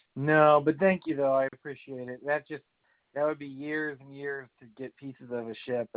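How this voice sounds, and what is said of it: Strained, unwell voice. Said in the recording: “I can't talk today. My voice is all acting up.”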